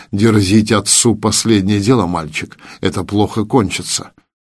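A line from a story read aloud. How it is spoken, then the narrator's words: Low undertone. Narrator (Russian): я сказал Игнату вполголоса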